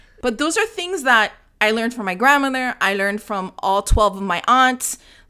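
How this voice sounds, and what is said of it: Latino-accented English. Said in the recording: “Latino ... I can't shake this accent”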